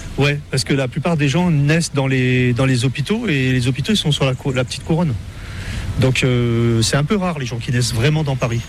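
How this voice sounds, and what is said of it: Parisian French accent. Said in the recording (French): “Vous n'avez pas l'accent créole quand vous parlez ... Et j'ai gardé mon accent parisien quand même.”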